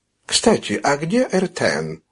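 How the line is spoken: Dry question. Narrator (Russian): сухо спросил Камильо

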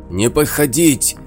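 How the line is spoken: Furious shouting. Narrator (Russian): яростно кричал Клык

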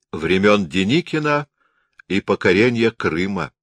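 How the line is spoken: Smirking. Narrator (Russian): усмехнулся Берг

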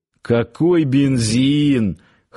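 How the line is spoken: Chuckling reply. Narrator (Russian): хохотнул в ответ Парсыкин

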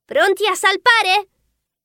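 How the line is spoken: Shout. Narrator (Italian): gridò

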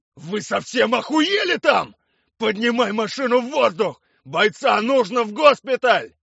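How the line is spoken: Shouting. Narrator (Russian): кричал Блинов

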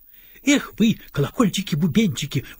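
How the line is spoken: Cheerful wife exclaiming. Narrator (Russian): воскликнула повеселевшая жена

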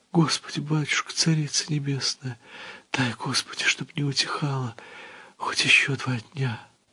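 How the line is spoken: Tearful whisper. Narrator (Russian): она, слизывая с губ слезы, стала шептать под гул метели

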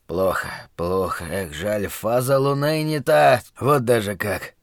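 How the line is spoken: Muttered. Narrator (Russian): гадальщик бормотал что-то вроде

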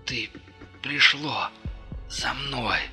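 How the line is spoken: Exhausted breathless gasp. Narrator (Russian): выдохнул он из последних сил

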